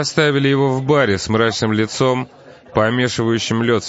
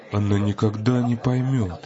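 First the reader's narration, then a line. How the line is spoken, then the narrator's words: Muttering. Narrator (Russian): пробормотал он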